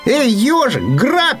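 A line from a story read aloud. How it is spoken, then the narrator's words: Shouted. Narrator (Russian): крикнул заяц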